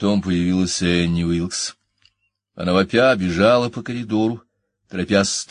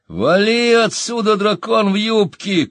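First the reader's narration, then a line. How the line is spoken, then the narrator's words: Shout. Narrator (Russian): крикнул кто-то из них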